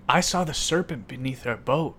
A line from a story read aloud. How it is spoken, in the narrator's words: exclaims